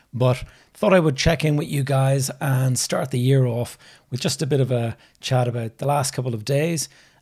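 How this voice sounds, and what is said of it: Slightly rough, hoarse voice. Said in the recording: “I've got a bit of a tickly throat, so you might hear my voice is a little bit rough.”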